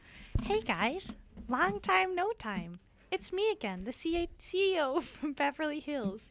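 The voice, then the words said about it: Put-on character voice. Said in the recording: “my Prander voice”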